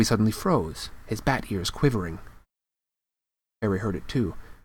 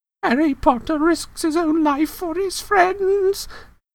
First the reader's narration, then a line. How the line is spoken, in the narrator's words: moaned Dobby in a kind of miserable ecstasy